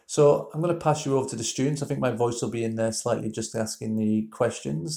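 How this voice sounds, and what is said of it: Northern English drawl. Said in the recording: “my northern drawl”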